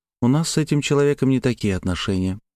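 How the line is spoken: Unexpectedly calm reply. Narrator (Russian): неожиданно спокойно ответила Славя

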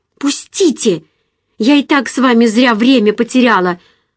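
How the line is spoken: Angry shout. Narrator (Russian): со злостью крикнула я

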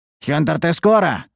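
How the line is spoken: Growled. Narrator (Russian): рыкнул

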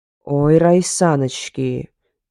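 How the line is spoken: Lizard's growl. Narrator (Russian): зарычал ящер

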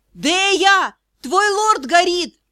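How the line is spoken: Shouted reply. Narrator (Russian): я крикнула в ответ

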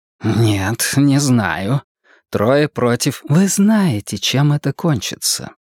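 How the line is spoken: Quiet interruption. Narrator (Russian): Все так же тихо перебила его Энея

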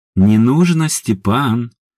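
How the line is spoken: Calm woman. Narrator (Russian): спокойно произнесла женщина

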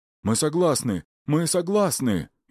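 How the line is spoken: Frightened cry. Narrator (Russian): испуганно вскрикнул Макар

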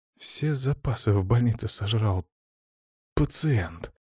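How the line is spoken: Whisper behind door. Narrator (Russian): прошептал кто-то из сотрудников за дверью

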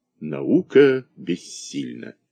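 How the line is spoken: Sepulchral after dramatic pause. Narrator (Russian): Доктор после драматической паузы заявлял гробовым голосом

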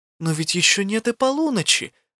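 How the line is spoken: Surprised exclamation. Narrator (Russian): воскликнула Элла

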